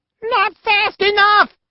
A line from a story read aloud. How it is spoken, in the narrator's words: shouted his butt